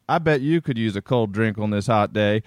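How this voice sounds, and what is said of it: Put-on southern US accent. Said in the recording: “I'm like laying into a southern accent.”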